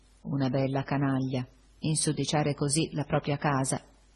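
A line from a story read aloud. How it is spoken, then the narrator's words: Murmured. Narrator (Italian): mormorai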